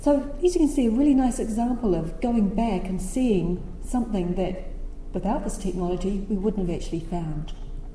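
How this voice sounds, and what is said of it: Deep American Southern accent. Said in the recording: “this is a deep southern accent, very deep south ... every time I say Madison, apparently it sounds like medicine”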